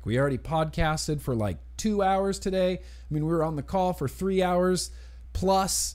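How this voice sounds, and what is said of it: Strained, worn-out voice. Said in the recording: “my voice is already getting worse? ... My voice is just going downhill fast.”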